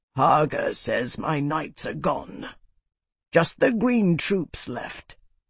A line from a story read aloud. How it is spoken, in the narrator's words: He grunted and said